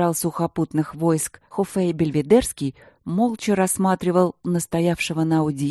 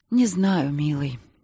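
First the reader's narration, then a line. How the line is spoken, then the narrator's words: Sigh. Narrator (Russian): снова вздохнула она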